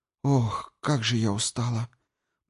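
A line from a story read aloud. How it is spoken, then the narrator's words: Tired mutter. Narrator (Russian): пробормотала Ирина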